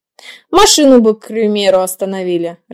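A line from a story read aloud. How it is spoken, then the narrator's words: Laughing. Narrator (Russian): рассмеялся Макс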